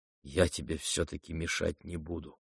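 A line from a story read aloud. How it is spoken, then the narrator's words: Quiet, pensive. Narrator (Russian): тихо проговорил он, почти задумчиво, как бы отвечая какой-то своей внутренней затаенной мысли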